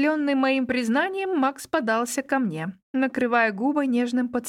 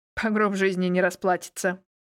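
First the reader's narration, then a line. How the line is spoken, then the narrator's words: Snorting, wry. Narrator (Russian): хмыкнул Ксавьер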